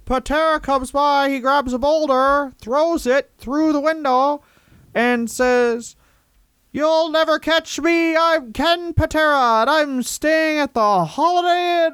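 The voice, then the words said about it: Larry Zbyszko impression. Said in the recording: “can you do it in a Larry Zbyszko voice? ... It's pretty close.”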